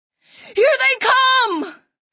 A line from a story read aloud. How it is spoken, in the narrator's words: Somebody yelled